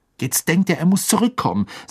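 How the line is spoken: Angry, fist banging. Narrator (German): sagte Harry und donnerte seine Faust so heftig auf den Tisch

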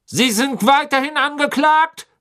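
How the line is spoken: Barking. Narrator (German): bellte Mr

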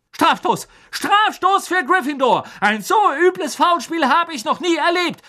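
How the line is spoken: Shriek. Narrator (German): kreischte Madame Hooch

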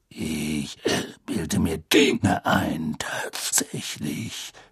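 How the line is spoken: Growling. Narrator (German): knurrte Moody

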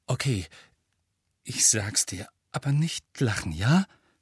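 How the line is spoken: Embarrassed defensive stammer. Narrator (German): stammelt Ron abwehrend und lief mit jeder Sekunde Röte an

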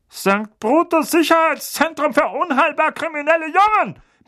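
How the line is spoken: Barking with hint of panic. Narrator (German): bellte Onkel Vernon, und Harry freute sich, einen deutlichen Anflug von Panik in seiner Stimme zu hören

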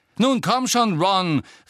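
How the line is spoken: Harsh call after someone. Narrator (German): rief ihm Angelina in barschem Ton hinterher

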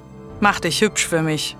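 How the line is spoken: Growl. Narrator (German): knurrte

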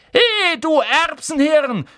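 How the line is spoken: Shouting from across room. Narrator (German): schrie Ron von der anderen Seite des Raums

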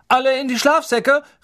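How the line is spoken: Calling. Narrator (German): rief Percy

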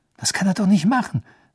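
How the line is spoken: Tense voice. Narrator (German): sagte Harry mit angespannter Stimme

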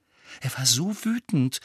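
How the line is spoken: Almost reverent voice. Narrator (German): sagte Hermine mit beinahe ehrfürchtiger Stimme

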